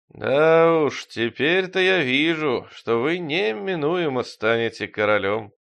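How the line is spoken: Singsong. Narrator (Russian): нараспев сказал Пистон Девятый

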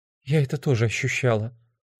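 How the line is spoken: Quiet. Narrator (Russian): тихо сказала Френ

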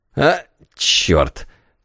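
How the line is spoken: Grumbling. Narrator (Russian): проворчал господин Лавриль

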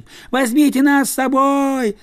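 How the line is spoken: Children yelling. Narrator (Russian): завопили дети

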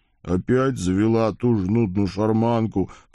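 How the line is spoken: Grumbling. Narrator (Russian): проворчал бедный кузнец

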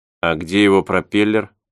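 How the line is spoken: Plain. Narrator (Russian): спросил я

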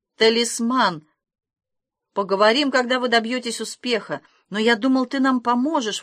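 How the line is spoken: Exclaiming. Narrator (Russian): воскликнул Масклин

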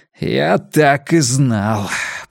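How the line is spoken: Grumbled under breath. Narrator (Russian): проворчал он себе под нос

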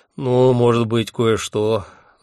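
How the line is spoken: Sighing. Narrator (Russian): вздохнул он

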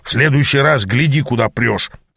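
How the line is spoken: Grumble. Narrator (Russian): проворчал он

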